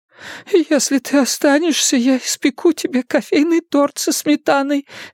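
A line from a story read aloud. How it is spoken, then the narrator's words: Babbling. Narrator (Russian): лепетала Майра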